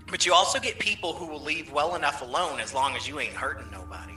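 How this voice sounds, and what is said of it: Southern twang, sarcastic tone. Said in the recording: “twang and sarcasm together”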